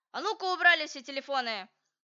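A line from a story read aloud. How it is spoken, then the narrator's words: Angry teacher's voice. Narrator (Russian): наша училка и говорит таким сердитым голосом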